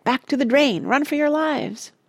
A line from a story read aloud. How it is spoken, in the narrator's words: cried Parrot